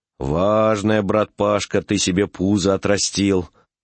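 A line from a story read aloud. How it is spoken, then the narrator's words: Sighing. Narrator (Russian): сказал он и вздохнул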